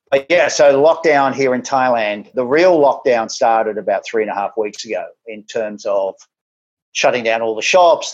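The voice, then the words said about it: Australian accent. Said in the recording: “Obviously, by the accent, I'm Australian originally.”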